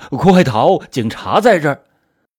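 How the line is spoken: Old man's sudden loud shout. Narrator (Chinese): 老头哆哆嗦嗦的，支支吾吾了半天，突然就对着电话大声的喊

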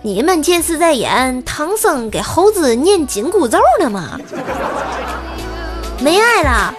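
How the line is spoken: Mother, light laugh. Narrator (Chinese): 老妈笑了笑说

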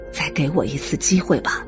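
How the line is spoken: Low pleading. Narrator (Chinese): 拉马尔他低声的哀求道

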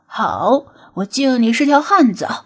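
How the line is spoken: Mocking, grudging laugh. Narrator (Chinese): 白狗眼中闪过一丝讥赏，笑道

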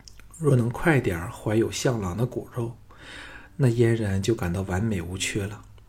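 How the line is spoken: Sighing. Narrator (Chinese): 季嫣然叹息说

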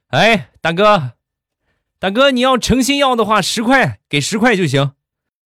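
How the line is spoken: Shopkeeper calling out. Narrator (Chinese): 老板一下把他喊住

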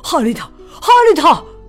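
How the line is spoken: Shouting. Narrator (Chinese): 富兰克林的爸爸喊起来

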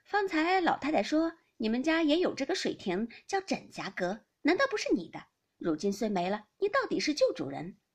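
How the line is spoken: Laughing. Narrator (Chinese): 宝钗笑道

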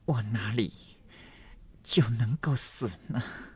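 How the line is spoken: Breathless, gasping. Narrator (Chinese): 这一句没说完，又喘成一处

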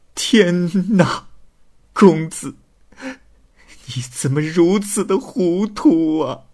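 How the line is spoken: Hoarse sobbing. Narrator (Chinese): 痛哭的声音嘶哑

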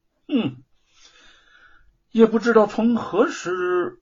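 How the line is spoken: Wistful sigh. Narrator (Chinese): 他对玉凤感叹的说

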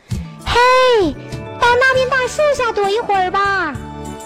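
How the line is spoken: Loud. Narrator (Chinese): 喜鹊阿姨大声说

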